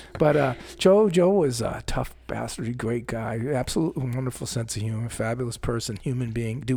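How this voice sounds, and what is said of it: Usual voice. Nothing is said of it.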